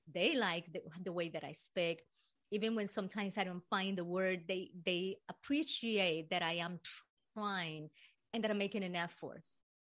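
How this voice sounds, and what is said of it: Non-native accented English. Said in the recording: “Americans actually like the accent ... People did accept my accent.”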